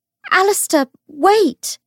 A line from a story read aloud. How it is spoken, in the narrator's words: she cried